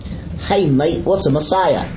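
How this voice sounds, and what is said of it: Put-on Australian accent. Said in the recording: “why is the question asked with that accent? ... Because your dad was going to Australia.”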